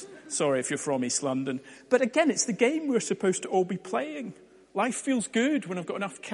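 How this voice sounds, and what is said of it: Usual voice. Nothing is said of it.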